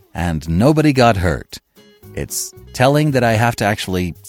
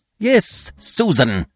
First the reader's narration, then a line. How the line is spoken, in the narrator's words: snapped the efficient one, who had always a short way with the domestic staff